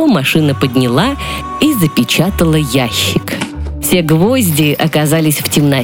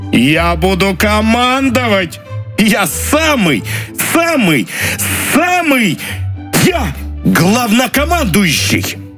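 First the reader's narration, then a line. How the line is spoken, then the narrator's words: Prolonged shouting. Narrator (Russian): кричал долго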